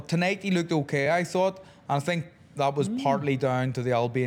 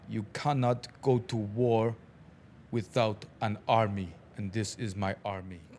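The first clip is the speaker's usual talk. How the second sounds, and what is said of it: Imitates another person's voice, Albanian accent. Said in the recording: “try and do an impression of what he said ... That was South Albanian. That was South Albanian, exactly where he's from.”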